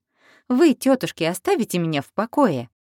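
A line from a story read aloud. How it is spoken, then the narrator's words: Laughing while speaking. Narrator (Russian): Но она тоже смеялась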